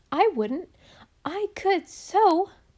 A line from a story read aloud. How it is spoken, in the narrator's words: cried Nan